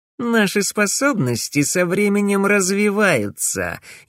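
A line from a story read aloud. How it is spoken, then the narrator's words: Snide, smirking. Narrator (Russian): ехидно ухмыльнулся Эмиль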